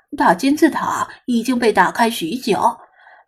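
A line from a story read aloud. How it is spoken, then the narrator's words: Exclaiming sigh. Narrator (Chinese): 他感叹道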